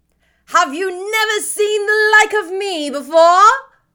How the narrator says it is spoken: exclaimed the spirit

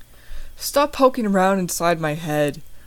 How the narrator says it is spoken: Hawkeye groans

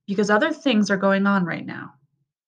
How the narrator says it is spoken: father said firmly

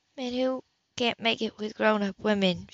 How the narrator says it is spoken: she said calmly

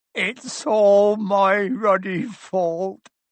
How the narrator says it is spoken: he sobbed

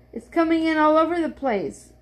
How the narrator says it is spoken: cried Henry

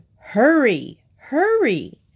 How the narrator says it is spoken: his mother shouted at him

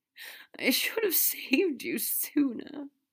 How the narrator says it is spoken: Draco gasped

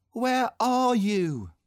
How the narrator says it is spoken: cried Christopher Robin

